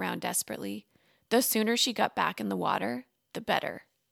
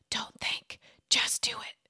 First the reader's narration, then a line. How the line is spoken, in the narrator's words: she whispered to herself